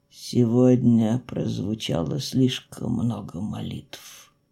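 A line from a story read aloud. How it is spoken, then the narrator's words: Muffled, hollow voice. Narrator (Russian): глухо произнес воевода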